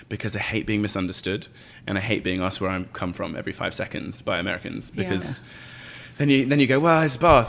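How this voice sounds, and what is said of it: British accent. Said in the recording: “You've got a beautiful accent... this is probably the most British that you will hear me”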